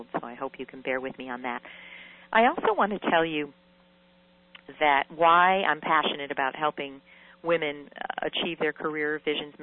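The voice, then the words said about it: Scratchy voice with a cold. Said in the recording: “my voice is a little bit scratchy. I have a little bit of a cold”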